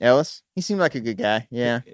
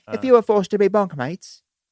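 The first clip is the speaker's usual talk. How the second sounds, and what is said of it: Poor put-on English accent. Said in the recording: “Said bunkmates, probably not from this country. ... English shit. ... It's not a good accent.”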